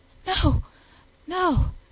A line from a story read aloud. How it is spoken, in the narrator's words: she panted